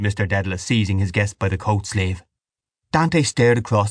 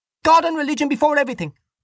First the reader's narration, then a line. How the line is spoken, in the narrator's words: Dante cried